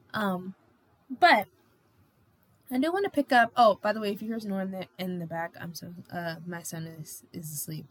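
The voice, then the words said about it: Tired, worn-out voice. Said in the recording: “my voice is numb. I'm exhausted.”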